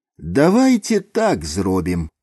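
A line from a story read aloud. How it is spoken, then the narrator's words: Plain. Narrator (Belarusian): сказаў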